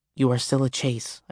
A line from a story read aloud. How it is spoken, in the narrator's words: I said quietly